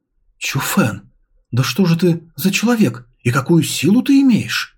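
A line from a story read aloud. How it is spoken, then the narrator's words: Muttering. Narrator (Russian): она пробормотала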